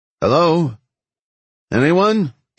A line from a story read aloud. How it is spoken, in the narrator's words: Dino called out again